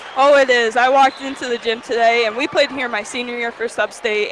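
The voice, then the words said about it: Hoarse, strained voice. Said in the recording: “losing my voice because I'm screaming so much”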